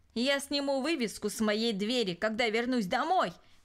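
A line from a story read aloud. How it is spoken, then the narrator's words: Shouted while leaving. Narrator (Russian): крикнул он, отъезжая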